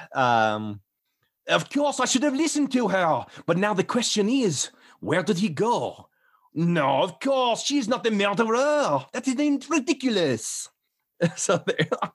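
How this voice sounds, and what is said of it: Put-on French/Belgian accent. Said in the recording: “Belgian ... can you do a French accent? I'm like, but of course I can do a French accent.”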